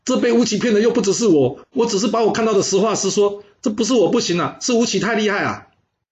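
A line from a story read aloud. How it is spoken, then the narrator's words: Protesting innocence. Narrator (Chinese): 张丑喊冤说道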